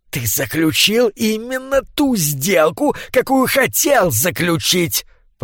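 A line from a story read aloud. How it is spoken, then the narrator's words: Hiss from hunched man. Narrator (Russian): прошипел скрюченный человек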